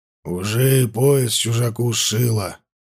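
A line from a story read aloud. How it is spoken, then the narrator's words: Grumbled. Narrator (Russian): буркнул он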